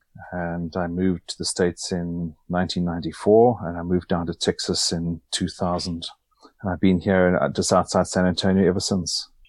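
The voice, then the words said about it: South African accent. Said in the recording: “people are picking up on your accent ... I'm originally from South Africa”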